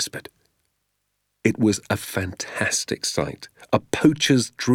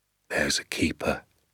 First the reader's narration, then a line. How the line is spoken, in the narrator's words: he said softly